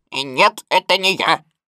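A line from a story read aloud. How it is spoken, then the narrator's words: Unnatural altered voice. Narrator (Russian): сказал кролик совершенно не своим голосом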